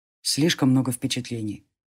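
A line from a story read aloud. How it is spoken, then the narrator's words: Muttering. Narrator (Russian): пробормотал Джари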